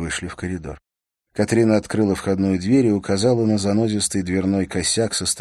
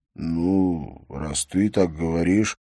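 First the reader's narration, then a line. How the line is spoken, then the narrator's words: Drawling. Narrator (Russian): протянул Бьорн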